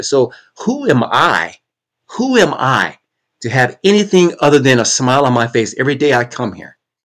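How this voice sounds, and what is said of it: Emotional, choked-up voice. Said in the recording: “getting a little choked up.”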